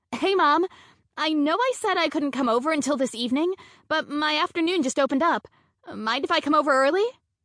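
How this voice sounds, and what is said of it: Bright, cheerful voice. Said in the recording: “put on my brightest voice.”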